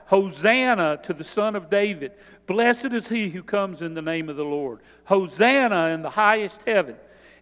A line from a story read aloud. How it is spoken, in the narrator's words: they cried out